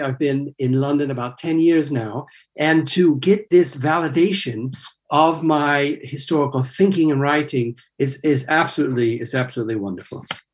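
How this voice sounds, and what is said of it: Non-native English accent. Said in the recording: “As you can tell from my accent, I am not originally from this country.”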